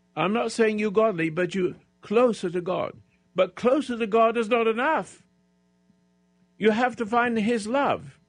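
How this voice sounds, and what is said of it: Shouting strained voice. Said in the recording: “I'm shouting, but I didn't have a voice unless I shout. I've been very sick”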